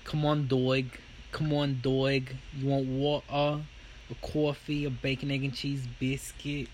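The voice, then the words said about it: Put-on New York accent. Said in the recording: “It's the way you looked up accents ... It's the way I practiced it in the car earlier today, trying to pretend I'm in a bodega in New York.”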